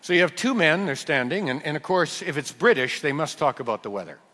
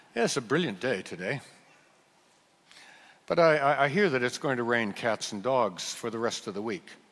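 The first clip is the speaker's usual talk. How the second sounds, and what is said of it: Weak attempt at British accent. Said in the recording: “let's see if I can do something that might be British. I'm not very good at it ... I can't do the accent”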